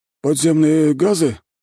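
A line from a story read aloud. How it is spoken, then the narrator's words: Uncertain reply. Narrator (Russian): неуверенно отвечает тот под его хмурым взглядом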